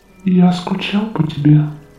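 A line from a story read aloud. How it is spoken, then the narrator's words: Soft. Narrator (Russian): тихо сказал он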